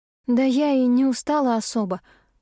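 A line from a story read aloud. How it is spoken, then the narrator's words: Sigh. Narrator (Russian): вздохнула я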